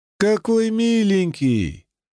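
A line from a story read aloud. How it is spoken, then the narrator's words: Loud exclamation. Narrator (Russian): громко воскликнула Кара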